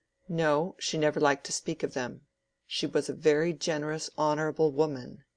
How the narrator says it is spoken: said Will, almost angrily

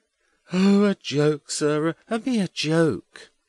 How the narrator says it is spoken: Edwin cuts in with a provoking yawn

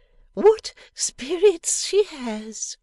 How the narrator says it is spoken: exclaims Mrs

